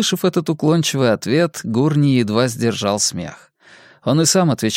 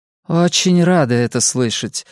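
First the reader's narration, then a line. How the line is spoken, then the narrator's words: Very gloomy. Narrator (Russian): очень мрачно сказала Мадлен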